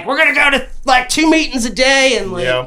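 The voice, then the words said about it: Aggressive put-on Southern US accent. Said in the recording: “I love your Southern accent. It's so aggressive. ... It's very Kentucky gentleman.”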